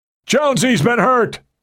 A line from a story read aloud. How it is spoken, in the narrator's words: Meadows shouted above the din